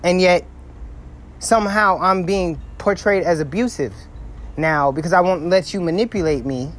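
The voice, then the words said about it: Loud, upset, passionate voice. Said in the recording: “My voice is just loud because I'm upset. I'm passionate.”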